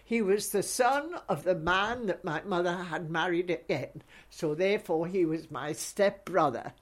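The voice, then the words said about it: Mixed Scottish and English accent. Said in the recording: “my terrible accent... being half Scottish and half half English”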